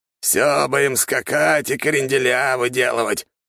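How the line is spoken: Displeased grumble. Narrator (Russian): недовольно пробурчал Чертков

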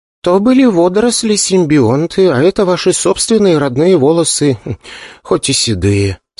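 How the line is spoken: Calm. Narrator (Russian): спокойно сказала девушка

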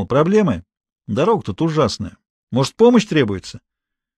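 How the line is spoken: Friendly shout. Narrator (Russian): Гуров дружеским тоном крикнул

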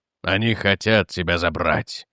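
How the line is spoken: Muffled, despairing. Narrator (Russian): глухо сказал Эверетт, и в его голосе было отчаяние

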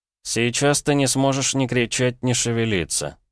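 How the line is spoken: Monotone voice. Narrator (Russian): монотонным голосом начал Петя

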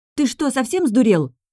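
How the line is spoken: Shrieking. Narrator (Russian): визжала я

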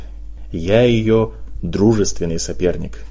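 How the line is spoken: Smirking drawl. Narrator (Russian): протянул Гарри, ухмыляясь

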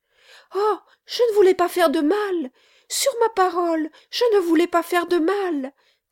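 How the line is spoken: Struggling little servant crying. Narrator (French): s'écria la petite servante, se débattant

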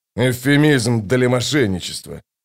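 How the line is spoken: Grumbling. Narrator (Russian): проворчал Кол

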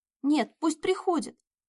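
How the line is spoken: Emboldened squeal. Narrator (Russian): Набравшись храбрости, взвизгнула Надя

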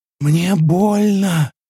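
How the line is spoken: Rasping. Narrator (Russian): прохрипела Аня

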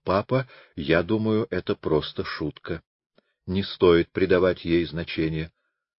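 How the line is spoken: Tender, loving. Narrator (Russian): она его нежно любила и потому сказала

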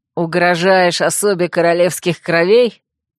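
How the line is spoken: Growl. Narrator (Russian): рыкнул Вемут

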